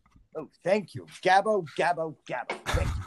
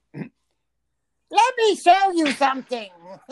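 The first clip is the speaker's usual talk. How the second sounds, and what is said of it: Cartoon character voice impression. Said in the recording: “I'm going to do my impression of Steve's impression of Jim Carrey ... that was the best Gabbo from The Simpsons impression I've ever heard”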